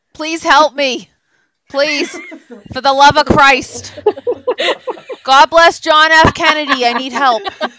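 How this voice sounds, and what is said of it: Boston accent. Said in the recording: “say it in your Boston accent”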